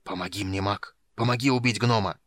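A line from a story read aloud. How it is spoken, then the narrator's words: Hissed. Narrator (Russian): прошипел Танин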